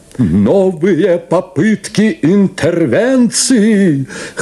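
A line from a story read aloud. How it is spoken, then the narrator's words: Laughing, wailing loudspeaker. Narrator (Russian): хохотал и плакал, как шакал рупор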